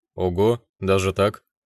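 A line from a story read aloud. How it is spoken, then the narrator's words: Snorting scoff. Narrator (Russian): хмыкнул я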